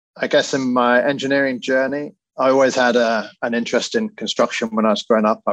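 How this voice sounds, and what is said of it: British accent. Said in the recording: “As you can probably tell by my accent, I grew up in the UK”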